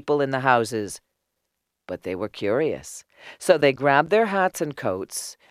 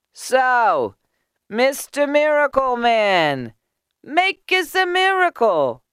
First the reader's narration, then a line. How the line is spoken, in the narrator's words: someone called out